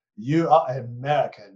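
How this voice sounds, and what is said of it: Weak put-on German accent. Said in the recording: “I'm not doing a very good German accent.”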